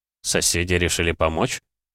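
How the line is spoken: Skeptical snort. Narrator (Russian): недоверчиво хмыкнул

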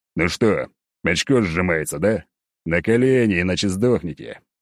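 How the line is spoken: Growl. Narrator (Russian): прорычал я

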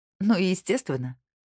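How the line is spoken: Laughing. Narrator (Russian): рассмеялась она

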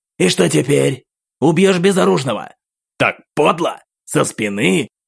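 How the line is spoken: Cracking voice, hoarse growl. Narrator (Russian): голос парня сорвался, и он изо всех сил полухрипом прорычал

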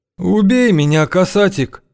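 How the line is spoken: Pleading. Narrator (Russian): взмолился изгнанник

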